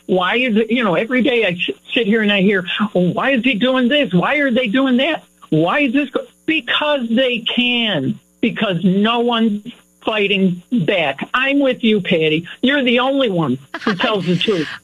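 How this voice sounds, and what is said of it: Loud, yelling voice. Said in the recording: “I do my share of yelling. You could probably tell that now. I'm sorry. I should lower my voice.”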